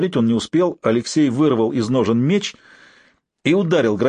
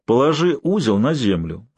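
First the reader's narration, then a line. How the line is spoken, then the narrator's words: Calm level command. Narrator (Russian): спокойно, не повышая голоса, скомандовал Алексей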